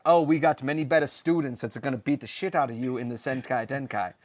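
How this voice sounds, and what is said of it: Put-on accent drifting South African. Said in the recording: “The accent changed a bit there. ... South African there.”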